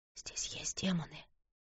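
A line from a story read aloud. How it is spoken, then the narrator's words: Whisper. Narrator (Russian): прошептала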